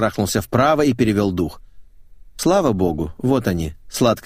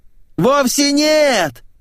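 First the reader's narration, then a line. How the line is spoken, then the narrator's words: Shrieking reply. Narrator (Russian): завопила в ответ певичка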